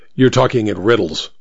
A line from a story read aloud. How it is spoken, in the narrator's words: snapped the detective